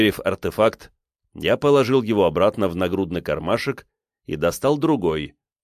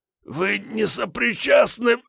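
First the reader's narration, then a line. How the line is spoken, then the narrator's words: Breathless exhale. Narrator (Russian): Он выдохнул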